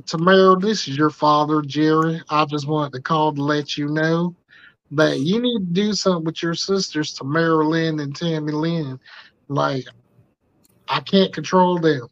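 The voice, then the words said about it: Put-on Southern US man accent. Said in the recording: “accent of like a southern white man”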